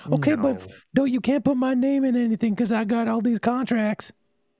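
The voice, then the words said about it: Imitates another person's voice. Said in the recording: “Your impression of Michael Jackson is the Jack Michelson from South Park.”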